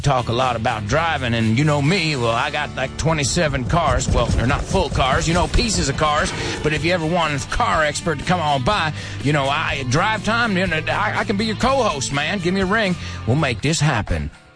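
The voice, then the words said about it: Southern US accent. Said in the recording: “That was a bit of a redneck, a bit of a southern United States accent. I'm not going to say redneck accent, but a southern U.S. accent.”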